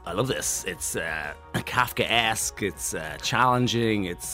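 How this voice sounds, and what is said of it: Imitates another person's voice. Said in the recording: “your Nicolas Cage impression”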